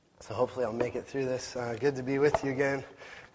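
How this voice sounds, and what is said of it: Hoarse, strained voice. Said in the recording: “I'm losing my voice a bit here.”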